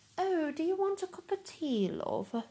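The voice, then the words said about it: Attempted posh London accent. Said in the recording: “I can't do a London accent to say, I can try ... as they think we sound ... unless you're in like a very posh part of London”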